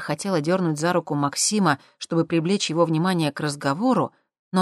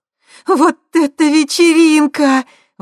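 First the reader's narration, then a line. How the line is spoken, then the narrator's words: Delighted breathless exclamation. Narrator (Russian): восторженно выдохнула Светка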